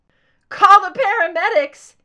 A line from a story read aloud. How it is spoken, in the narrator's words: he screamed